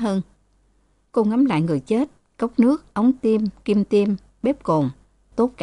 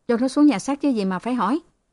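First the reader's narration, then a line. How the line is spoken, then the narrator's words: Sleepy, snapping reply. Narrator (Vietnamese): Mặt ngái ngủ, anh ta đáp như gắt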